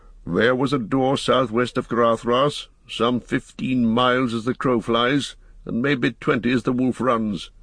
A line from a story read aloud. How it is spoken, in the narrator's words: answered Gandalf grimly